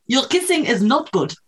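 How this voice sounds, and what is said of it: Attempted German accent. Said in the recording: “That is an interesting German accent. ... I can't do a German accent.”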